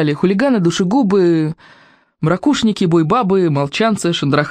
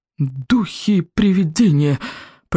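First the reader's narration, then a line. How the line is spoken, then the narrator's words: Frightened babbling. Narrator (Russian): пролепетал стойко обширный побелевшими губами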